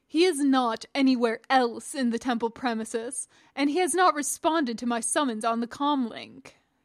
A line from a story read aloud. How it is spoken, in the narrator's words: Chabath said haughtily